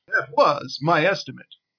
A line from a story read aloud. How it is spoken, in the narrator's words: exclaimed Bard